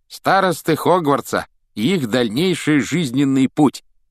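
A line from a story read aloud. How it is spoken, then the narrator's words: Loud reading. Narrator (Russian): громко прочитал Рон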